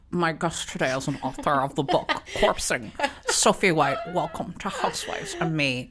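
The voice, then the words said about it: Impression of Meredith Marks. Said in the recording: “just do the whole episode as her ... your impression is such a delight ... she sounds like somebody who's had their voice distorted to give a sensitive, like, interview”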